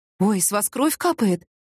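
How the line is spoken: Frightened. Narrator (Russian): испуганно сказала продавщица

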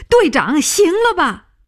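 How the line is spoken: Shouting. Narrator (Chinese): 他叫起来

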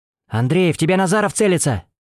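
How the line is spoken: Shouted. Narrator (Russian): закричал Орлов

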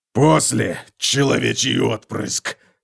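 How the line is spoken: Hoarse rasp. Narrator (Russian): прохрипел он

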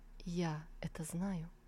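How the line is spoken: Quiet answer. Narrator (Russian): Он тихо ответил

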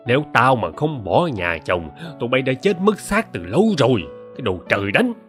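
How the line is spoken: Hissing through teeth. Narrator (Vietnamese): tiếng rít qua kẽ răng

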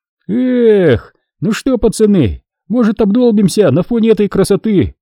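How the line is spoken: Excited exclamation. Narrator (Russian): воскликнул Хасан

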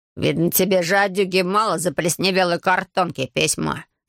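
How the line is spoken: Snorted. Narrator (Russian): фыркнул он

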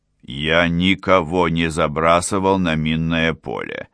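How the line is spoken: Through gritted teeth. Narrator (Russian): процедил Адам

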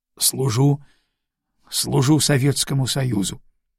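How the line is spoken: Barely audible, sullen. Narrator (Russian): Он насупился, покраснел и ответил чуть слышно

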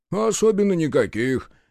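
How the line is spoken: Dejected sigh. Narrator (Russian): Якунин сокрушенно вздохнул

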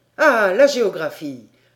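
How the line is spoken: Stung exclamation. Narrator (French): s'écria Paganel, touché dans son endroit sensible

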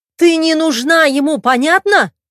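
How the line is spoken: Shrill furious shriek. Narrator (Russian): Взвизгнула женщина, превращаясь в настоящую медузу-горгону

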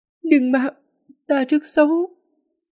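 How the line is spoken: Hoarse voice. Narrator (Vietnamese): Nguyệt Thiên Tôn chợt giọng khàn khàn nói

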